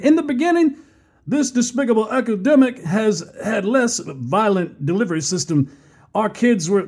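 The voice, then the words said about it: Poor Bill Clinton impression. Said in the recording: “horrible Clinton impersonation”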